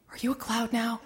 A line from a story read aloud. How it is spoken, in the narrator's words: he will whisper